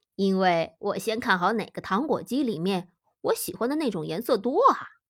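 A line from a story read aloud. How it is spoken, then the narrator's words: Sly laugh. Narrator (Chinese): 皮特狡黠的笑道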